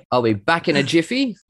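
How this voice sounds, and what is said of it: Attempted Australian accent. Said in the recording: “see if you can say this in your best Aussie accent ... Very good.”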